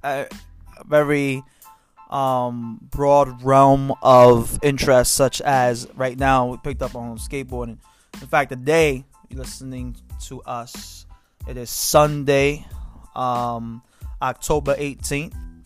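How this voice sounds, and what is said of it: Thick accent. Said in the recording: “You have a thick accent.”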